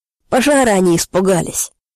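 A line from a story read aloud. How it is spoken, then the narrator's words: Laughing. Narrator (Russian): смеялся Олег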